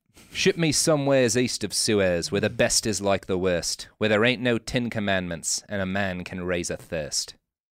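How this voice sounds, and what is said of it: Put-on British accent. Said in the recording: “I'm going to do it in a British accent.”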